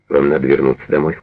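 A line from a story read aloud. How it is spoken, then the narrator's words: Plain. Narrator (Russian): сказал он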